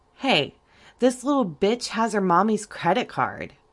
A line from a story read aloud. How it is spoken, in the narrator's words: one of the men exclaimed